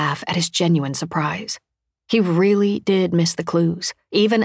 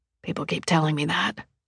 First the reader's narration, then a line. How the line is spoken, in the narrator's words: I murmur